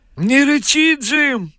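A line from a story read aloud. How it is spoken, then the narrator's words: Shouting. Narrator (Russian): кричал японец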